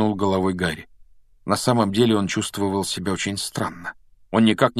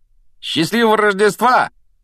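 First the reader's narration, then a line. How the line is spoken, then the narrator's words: Shout from doorway. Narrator (Russian): прокричал с порога Фред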